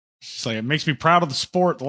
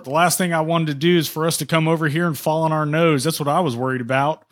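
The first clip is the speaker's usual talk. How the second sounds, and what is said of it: Hardcore Southern NASCAR accent. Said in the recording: “having like a hardcore Southern NASCAR accent attached to it”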